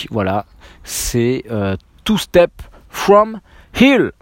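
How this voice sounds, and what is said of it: Heavily accented English pronunciation. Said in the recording (French): “avec mon super accent”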